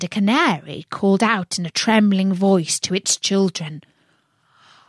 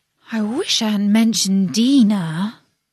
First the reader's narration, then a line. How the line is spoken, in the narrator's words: she said to herself in a melancholy tone